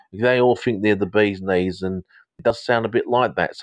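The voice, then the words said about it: Put-on southern English London accent. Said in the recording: “I often go into a bit of an English sort of accent from Londonish ... down south”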